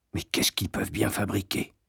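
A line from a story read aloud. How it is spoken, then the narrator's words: Whisper. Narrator (French): chuchotai-je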